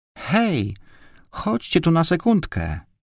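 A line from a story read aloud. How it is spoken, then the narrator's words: Distant exclamation. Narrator (Polish): wykrzyknęła Barbarka z głębi korytarza po prawej stronie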